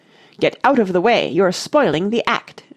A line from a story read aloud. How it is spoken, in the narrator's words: she said haughtily